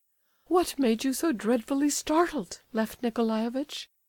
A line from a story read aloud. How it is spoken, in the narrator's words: she added, a little timidly